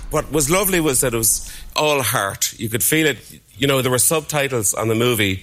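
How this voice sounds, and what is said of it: Unusual island accent. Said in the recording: “That's a queer accent he has, isn't it? Obviously, he's from the island.”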